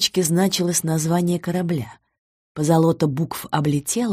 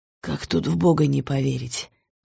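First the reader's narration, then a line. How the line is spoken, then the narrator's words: Young man's sigh. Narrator (Russian): вздохнул парень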